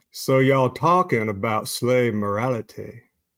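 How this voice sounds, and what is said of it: Southern preacher voice. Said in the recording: “in a Southern preacher voice”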